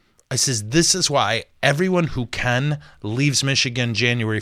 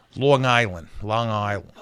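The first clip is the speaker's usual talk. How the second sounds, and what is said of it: Imitated Long Island accent. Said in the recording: “Long Island, New York. I know a guy. I can't do that accent, but I can do a close one.”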